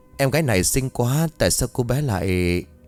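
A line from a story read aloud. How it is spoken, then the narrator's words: Sad sigh. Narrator (Vietnamese): Liệu Tử Ninh buồn bã thở dài, rồi nói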